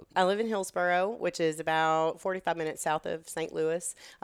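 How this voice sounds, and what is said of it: Texan accent. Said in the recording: “the Texan accent, like, I can't lose it”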